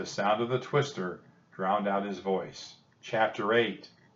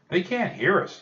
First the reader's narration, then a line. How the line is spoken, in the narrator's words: yelled Jack